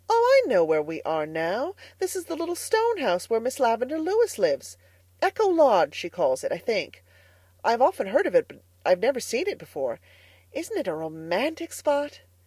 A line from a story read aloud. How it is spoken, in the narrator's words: Diana exclaimed